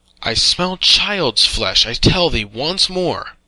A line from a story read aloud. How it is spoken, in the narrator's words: cried the ogre